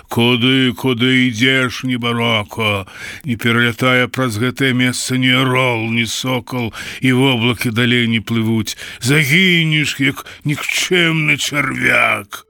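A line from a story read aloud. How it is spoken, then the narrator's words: Terrifying thunderous roar. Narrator (Belarusian): ён закрычаў страшным бегрымоты голасам так, што задрыжала ўся ваколіца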